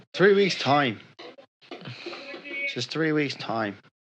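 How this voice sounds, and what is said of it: Put-on Irish accent, slipping. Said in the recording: “I don't know if I can keep this Irish accent going. It starts turning like a Chinese a little bit.”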